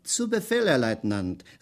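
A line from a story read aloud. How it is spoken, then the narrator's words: Called out. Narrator (German): rief Schweig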